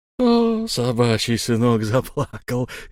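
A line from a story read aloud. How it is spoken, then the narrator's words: Mocking laugh. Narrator (Russian): издевательски засмеялся Эльм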